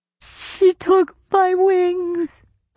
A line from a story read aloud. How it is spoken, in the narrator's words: the fairy sobbed